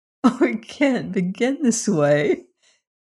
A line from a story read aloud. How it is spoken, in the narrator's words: laughed